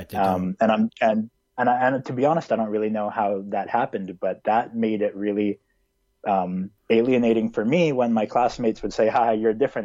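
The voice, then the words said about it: North American accent. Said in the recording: “I have a very kind of North American accent”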